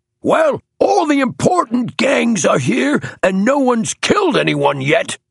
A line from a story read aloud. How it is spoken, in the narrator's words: shouted the thick-set man on the platform